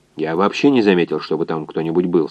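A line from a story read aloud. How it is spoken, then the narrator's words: Plain. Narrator (Russian): сказал физик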